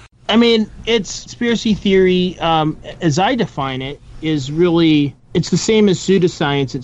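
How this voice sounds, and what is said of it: Usual voice. Nothing is said of it.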